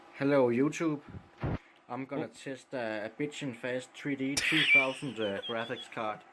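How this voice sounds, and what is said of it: Danish accent. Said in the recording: “Danish accent”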